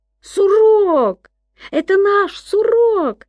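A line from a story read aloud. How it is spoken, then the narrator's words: Shout. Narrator (Russian): крикнул Гай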